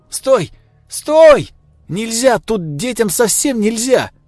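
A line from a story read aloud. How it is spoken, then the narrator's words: Shouting. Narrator (Russian): кричала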